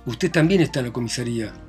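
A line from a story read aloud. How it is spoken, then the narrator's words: Plain. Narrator (Spanish): contestó Raskolnikov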